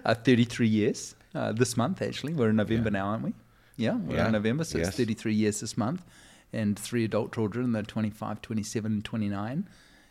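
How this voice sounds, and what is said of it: New Zealand accent. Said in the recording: “a great accent... you're easy to listen to with that New Zealand accent”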